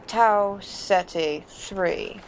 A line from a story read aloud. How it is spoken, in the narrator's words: McCoy replied slowly